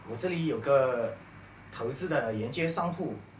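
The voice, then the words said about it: Odd put-on Fujian-accented Mandarin. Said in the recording (Chinese): “口音有点奇怪啊。 ... 搿福建人。”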